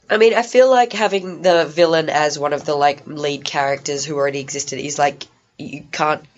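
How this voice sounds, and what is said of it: Hoarse, fading voice. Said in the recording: “I shouldn't be talking this much because I'm losing my voice.”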